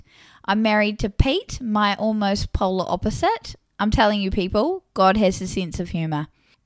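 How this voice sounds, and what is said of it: New Zealand accent. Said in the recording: “I live in what some describe as the Garden of Eden, aka New Zealand, as if it wasn't obvious due to my accent”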